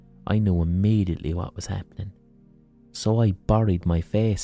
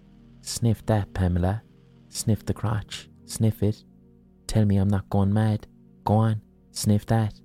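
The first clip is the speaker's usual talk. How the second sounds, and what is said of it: Affected English accent. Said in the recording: “He spoke the words in an affected English accent.”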